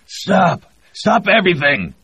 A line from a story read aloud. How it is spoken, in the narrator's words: Connor shouted